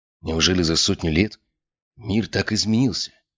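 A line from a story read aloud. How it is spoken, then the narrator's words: Muttered. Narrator (Russian): пробормотал я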